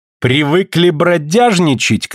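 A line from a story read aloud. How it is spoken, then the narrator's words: Shouted. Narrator (Russian): крикнул он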